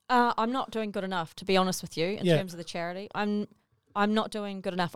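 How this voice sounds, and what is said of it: New Zealand accent. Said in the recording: “I can tell by your accent ... New Zealand”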